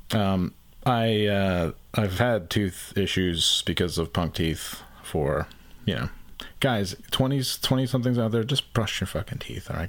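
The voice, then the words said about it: Strange, slightly lispy voice. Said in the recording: “my voice sounds a little strange, or a little weird or a little lispy. It's because I have a massive abscess in my uh, back molar.”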